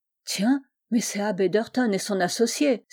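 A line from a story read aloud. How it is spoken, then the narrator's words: Driver's sudden exclamation. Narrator (French): s'écria tout à coup le conducteur de la voiture, qui n'était autre que M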